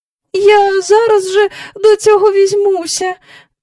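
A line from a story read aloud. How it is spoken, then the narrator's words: Weak voice. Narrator (Ukrainian): промовила місіс Бенкс кволим голосом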